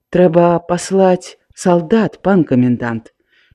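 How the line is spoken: Quiet, calmer, bolder. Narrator (Belarusian): Мацей Кулеш трохі супакоіўся, пасмялеў і ціха сказаў

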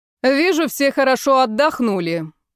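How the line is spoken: Ringing booming voice. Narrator (Russian): прогремел звонкий голос Натальи Михайловны на весь спортивный зал

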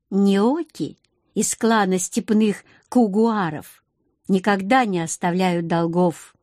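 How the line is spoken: Plain. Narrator (Russian): ответила она

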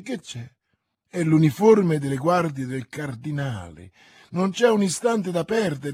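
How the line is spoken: Exclaimed. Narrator (Italian): esclamò Milady

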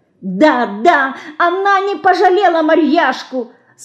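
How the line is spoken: Tearful angry shout, small. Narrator (Russian): Со слезами и гневом кричала мышка

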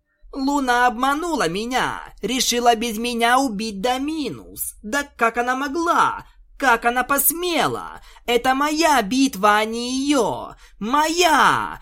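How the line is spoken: Furious shouting. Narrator (Russian): разъяренно кричала Твайлайт

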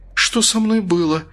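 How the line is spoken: Frightened question. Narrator (Russian): испуганно спросила она

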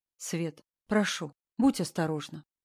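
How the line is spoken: Quiet, heart-wrenching. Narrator (Russian): тихо сказал он, и в голосе была та нота, которая ранит прямо в сердце и сеет сомнения

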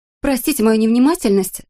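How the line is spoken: Rapid chattering woman. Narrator (Russian): затараторила женщина

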